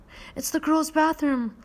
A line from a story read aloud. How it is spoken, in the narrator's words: Harry gasped